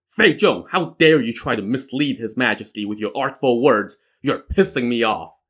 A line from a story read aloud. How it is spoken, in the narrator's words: He growled